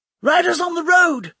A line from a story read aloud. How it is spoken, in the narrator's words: someone shouted